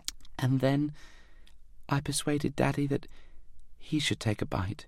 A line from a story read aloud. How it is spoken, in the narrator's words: sighed